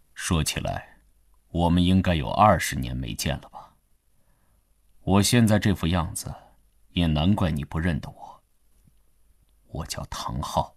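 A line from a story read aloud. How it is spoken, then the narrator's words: Calm, indifferent. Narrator (Chinese): 灰衣人淡淡地说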